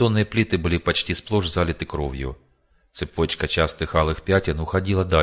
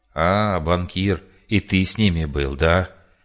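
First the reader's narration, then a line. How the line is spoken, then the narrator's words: Medic's unangry, almost sad voice. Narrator (Russian): Без злости в голосе почти печально проговорил фельдшер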